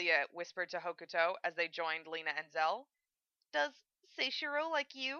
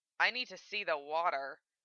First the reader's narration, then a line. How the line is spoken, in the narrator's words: Val growled